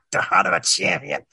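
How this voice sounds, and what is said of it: Imitates another person's voice. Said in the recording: “that's my best impression.”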